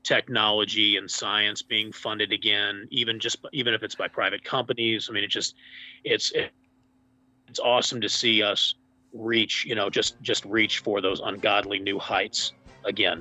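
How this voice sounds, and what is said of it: Strained, worn-out hoarse voice. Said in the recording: “My voice is, almost shot. I've been in a lot of meetings here in the past week.”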